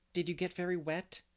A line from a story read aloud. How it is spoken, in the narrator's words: she asked anxiously